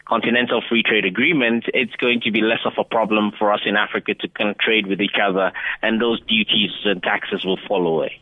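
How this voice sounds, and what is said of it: Speaks with a noticeable accent. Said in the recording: “You can hear the accent there coming through.”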